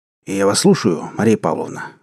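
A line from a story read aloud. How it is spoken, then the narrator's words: Hoarse, embarrassed. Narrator (Russian): сказал он хрипло, чтобы скрыть замешательство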